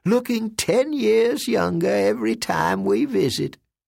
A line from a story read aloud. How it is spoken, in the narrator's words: Ma Everett chirped